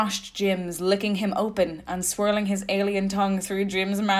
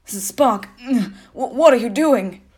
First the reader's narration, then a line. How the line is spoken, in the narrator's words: Jim moaned